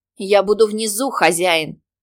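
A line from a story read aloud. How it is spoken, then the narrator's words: Demoness shouting. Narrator (Russian): прокричала демоница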